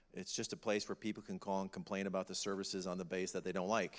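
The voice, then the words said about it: Northern Wisconsin accent, nasal. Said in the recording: “you hear that I have this sort of northern, it sometimes it changes northern accent. I'm a Yankee from Wisconsin. If you say Wisconsin, you get the nasal going.”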